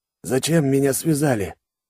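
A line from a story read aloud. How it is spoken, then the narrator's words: Weak hoarse wheeze. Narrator (Russian): кое-как просипел Павел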